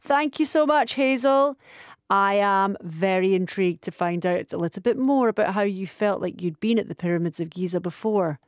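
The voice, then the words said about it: Scottish accent. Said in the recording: “your dulcet tones. It takes a lot to beat a Scottish accent”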